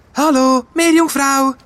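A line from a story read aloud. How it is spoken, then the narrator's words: Calling out again. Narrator (German): ruft Fee zum dritten Mal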